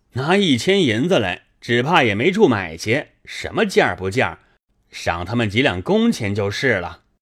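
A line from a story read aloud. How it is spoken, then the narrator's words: Laughing. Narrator (Chinese): 薛蟠笑道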